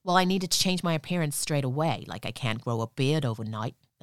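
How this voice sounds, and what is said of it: Bad put-on New York accent. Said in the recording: “that was a really bad New York accent.”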